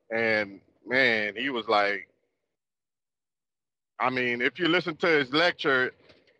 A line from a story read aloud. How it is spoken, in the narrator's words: the man almost cried